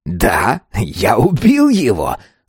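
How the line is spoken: Laughing. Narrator (Russian): рассмеялся автарх

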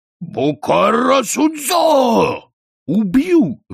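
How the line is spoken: Roaring. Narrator (Russian): взревел он

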